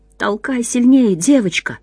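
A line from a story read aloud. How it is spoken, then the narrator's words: Whispered. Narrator (Russian): шептал другой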